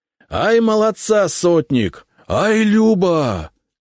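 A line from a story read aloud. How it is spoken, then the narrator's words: Shouting. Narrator (Russian): кричал Сомов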